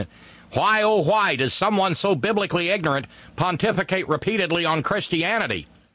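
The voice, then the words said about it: Put-on Illinois accent. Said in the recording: “that's a little bit better Illinois accent”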